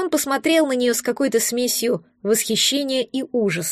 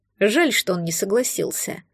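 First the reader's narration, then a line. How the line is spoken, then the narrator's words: Quiet remark. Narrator (Russian): тихо заметил адъютант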